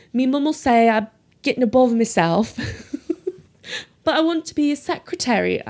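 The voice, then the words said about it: Poorly imitated Yorkshire accent. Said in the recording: “she has this amazing Yorkshire accent ... I'm obviously butchering the accent”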